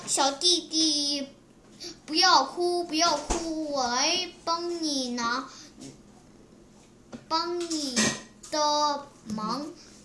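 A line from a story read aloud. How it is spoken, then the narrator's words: Little monkey speaking. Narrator (Chinese): 一只小猴子说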